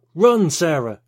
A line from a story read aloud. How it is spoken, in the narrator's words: Morgan yelled